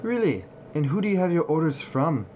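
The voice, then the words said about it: Dwarf character voice, changed accent. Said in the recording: “as my accent changes”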